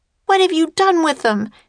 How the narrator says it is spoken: cried Annie

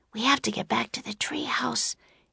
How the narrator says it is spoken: Annie whispered

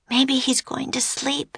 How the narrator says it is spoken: Annie whispered

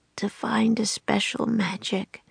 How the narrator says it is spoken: he mumbled

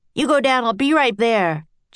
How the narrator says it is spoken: Jack shouted to Annie

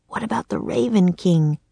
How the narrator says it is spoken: croaked Jack

